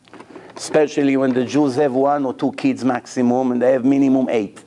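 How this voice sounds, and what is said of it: Israeli accent. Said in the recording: “my accent, Israeli accent”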